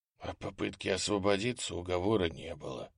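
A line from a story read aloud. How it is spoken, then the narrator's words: Whisper. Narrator (Russian): прошептал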